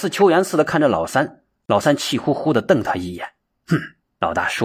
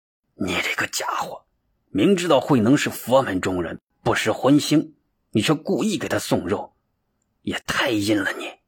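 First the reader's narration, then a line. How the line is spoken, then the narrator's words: Cursing through gritted teeth. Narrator (Chinese): 老大咬牙切齿的骂道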